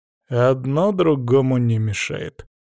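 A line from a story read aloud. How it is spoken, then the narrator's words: Quiet curt remark. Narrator (Russian): проронил я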